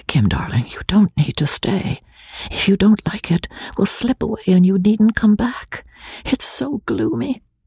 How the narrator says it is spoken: She whispered hurriedly in her ear

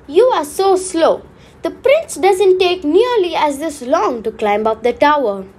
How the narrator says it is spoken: Rapunzel exclaimed

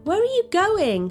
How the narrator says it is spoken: she cried, running after him

